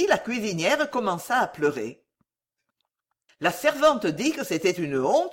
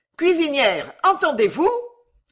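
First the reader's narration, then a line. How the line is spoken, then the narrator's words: Angry shout. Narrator (French): cria la vieille demoiselle avec colère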